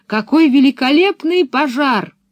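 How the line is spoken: Shout. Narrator (Russian): она крикнув

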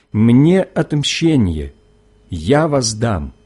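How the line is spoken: Plain. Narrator (Russian): говорит Господь

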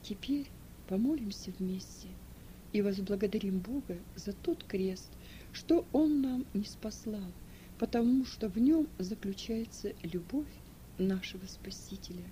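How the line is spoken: Spoken softly. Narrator (Russian): он тихо сказал

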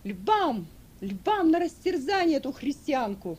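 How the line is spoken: Crowd shouting. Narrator (Russian): Закричали

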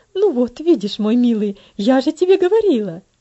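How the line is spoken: Triumphant exclaiming mother. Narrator (Russian): победоносно воскликнула его мать

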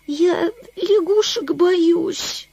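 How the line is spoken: Whimpering. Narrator (Russian): захныкала она

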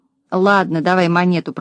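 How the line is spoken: Grumbled. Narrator (Russian): проворчал Дригль

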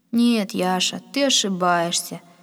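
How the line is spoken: Weary. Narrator (Russian): сказал Пахом, устало склонив голову

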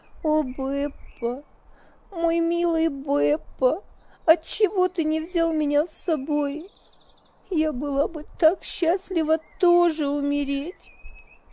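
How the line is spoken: Inconsolable sobbing. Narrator (Russian): долго и неутешно рыдала

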